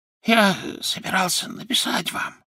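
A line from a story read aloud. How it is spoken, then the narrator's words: Whisper. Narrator (Russian): зашептал он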